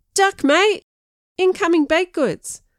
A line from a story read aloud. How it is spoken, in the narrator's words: mocking cries of